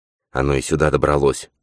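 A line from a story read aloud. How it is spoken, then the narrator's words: Muttered. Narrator (Russian): пробормотал он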